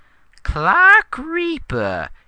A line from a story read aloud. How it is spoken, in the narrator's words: he squealed in a high-pitched voice that grated on the ears and sent chills to the heart